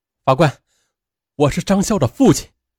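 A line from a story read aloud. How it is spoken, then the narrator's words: Loud father. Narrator (Chinese): 张笑的父亲高声的说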